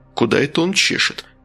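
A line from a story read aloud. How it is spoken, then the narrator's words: Investigator mumbling. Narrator (Russian): пробормотал следователь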